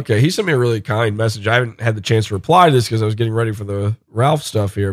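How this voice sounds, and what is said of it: Strained voice, nearly lost. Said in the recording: “I'm about to lose my voice ... I'm dying here”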